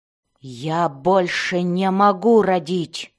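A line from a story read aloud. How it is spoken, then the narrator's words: Growling reply. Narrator (Russian): зарычала в ответ Мелис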